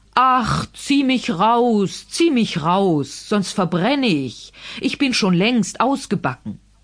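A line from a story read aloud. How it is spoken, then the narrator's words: Bread calling out. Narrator (German): Das Brot aber rief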